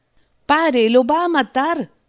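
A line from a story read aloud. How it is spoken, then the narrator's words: Shout. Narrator (Spanish): gritó Rost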